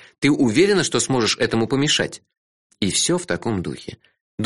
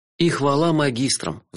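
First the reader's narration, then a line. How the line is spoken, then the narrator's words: Sigh. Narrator (Russian): вздохнул я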